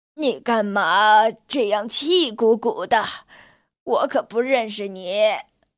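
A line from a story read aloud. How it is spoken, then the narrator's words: Muttering. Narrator (Chinese): 老灰狗咕哝着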